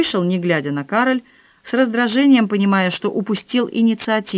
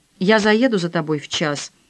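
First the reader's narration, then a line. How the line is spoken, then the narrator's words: Dry offer. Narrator (Russian): сухо предложил Филипп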